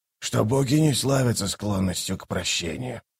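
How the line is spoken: Whisper. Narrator (Russian): прошептал он

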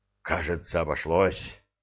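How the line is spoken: Relieved exhale. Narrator (Russian): выдохнул Майкл

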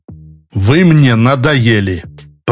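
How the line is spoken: Said through teeth. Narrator (Russian): Процедил

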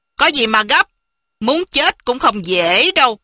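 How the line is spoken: Cold. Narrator (Vietnamese): Hoàng Dược Sư lạnh lùng nói

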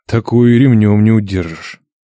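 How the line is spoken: Sigh. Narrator (Russian): вздохнул Нечай

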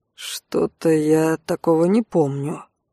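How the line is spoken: Muttered. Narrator (Russian): пробормотал Алан

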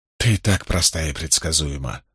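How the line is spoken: Muttered. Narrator (Russian): пробормотала Магеддин

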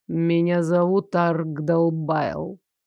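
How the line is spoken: Proud, booming voice. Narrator (Russian): гордо произнес отец, и его голос при этом признании неожиданно окреп и грозно загремел

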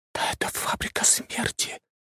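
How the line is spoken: Disgusted whisper. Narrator (Russian): прошептала Аня с отвращением

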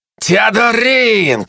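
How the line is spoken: Shouting again. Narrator (Russian): снова выкрикнул Феликс

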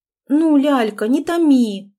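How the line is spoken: Pleading. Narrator (Russian): взмолилась

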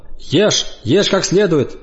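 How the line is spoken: Stern command. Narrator (Russian): строго велела она

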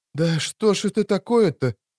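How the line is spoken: Near moan. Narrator (Russian): Чуть не простонала Мильва

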